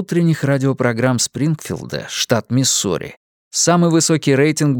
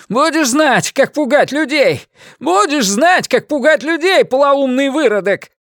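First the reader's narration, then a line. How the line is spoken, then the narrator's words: Hysterical shout over shoulder. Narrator (Russian): Один из них истерично крикнул через плечо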